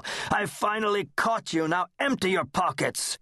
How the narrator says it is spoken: Hugo growled like a dog

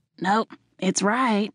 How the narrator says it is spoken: she slurred

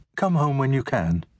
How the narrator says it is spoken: said, her voice light

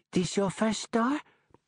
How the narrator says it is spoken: Gloria Yu says, her voice quivering with excitement

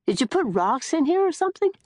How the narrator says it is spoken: begins to laugh

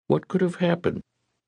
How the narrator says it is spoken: she asked

